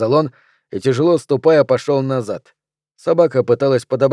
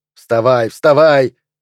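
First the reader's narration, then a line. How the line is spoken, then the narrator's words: Shouting. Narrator (Russian): кричал он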